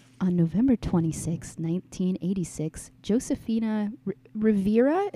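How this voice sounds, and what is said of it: NPR host voice, Phoebe Judge impression. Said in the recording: “Give me your best NPR voice ... I'll do like a Phoebe Judge. Like, this is criminal.”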